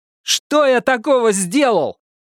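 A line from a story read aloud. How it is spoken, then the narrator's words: Shout. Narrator (Russian): крикнул я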